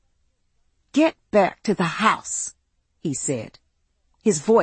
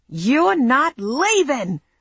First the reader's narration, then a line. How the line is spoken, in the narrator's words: he shouted